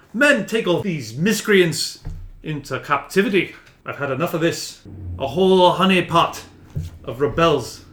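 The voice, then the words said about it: Character voice with slight Irish accent. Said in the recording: “He's Irish, right? A little Irish. ... Yeah, a little bit Irish. ... Rogue accent.”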